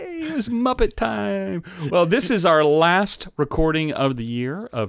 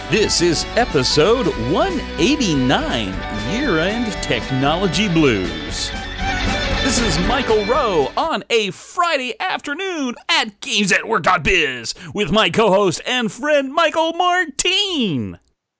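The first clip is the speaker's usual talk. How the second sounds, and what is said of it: Put-on radio announcer voice. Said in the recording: “natural, unstrained radio voice”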